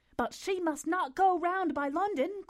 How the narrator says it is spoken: cried Marianne in the same hurried manner

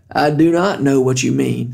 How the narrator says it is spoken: said Randall

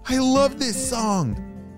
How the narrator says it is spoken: Harry shouted

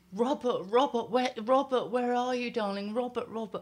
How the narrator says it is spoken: my mum was shouting and shouting

